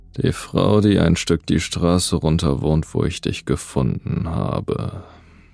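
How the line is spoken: Thoughtful voice. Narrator (German): sagte er mit nachdenklicher Stimme

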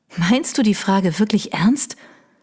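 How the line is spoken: Resigned sigh. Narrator (German): Ihre Chefin seufzte resigniert

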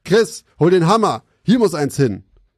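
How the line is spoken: Calling out. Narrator (German): rief er seinem Kollegen zu

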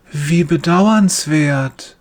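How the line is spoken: Gentle voice. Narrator (German): sagt er mit sanfter Stimme

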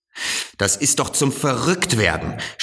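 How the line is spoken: Shouting. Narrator (German): schrie der Direktor

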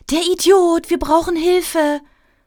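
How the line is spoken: Woman calling out. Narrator (German): rief sie

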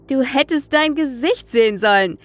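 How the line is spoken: Excited exclamation. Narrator (German): rief er begeistert

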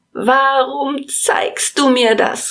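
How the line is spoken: Called out. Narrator (German): rief er

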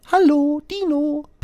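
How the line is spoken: Chirped by a robin. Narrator (German): piepst das Rotkehlchen

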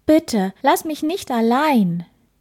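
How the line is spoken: Calling out. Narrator (German): Er rief

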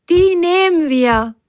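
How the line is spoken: Called out. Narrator (German): rief Biene Firlefanz zu

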